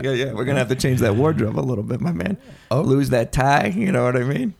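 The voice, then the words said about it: Accent like a Sopranos character. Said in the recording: “accent. Don't you think it's neat? ... you sound like you're on the Sopranos to me.”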